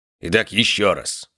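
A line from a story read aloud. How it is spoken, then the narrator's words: Serious tone. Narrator (Russian): говорил он серьезным тоном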